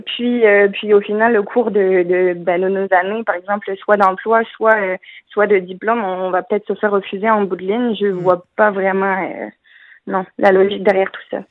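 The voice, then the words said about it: French speaker with slight Québécois accent. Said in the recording (French): “Ils ont même pogné un petit peu de notre accent.”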